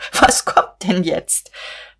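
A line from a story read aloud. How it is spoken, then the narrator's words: Choking with laughter. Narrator (German): sagte sie und vor Lachen erstickend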